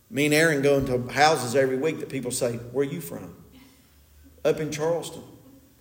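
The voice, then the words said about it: Eastern Kentucky, West Virginia accent. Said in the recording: “we have that Eastern Kentucky, Southern West Virginia accent”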